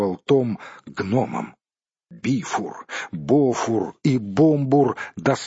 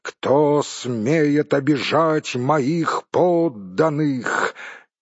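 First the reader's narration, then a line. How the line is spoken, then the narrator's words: Thunderous exclamation. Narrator (Russian): он воскликнул громовым голосом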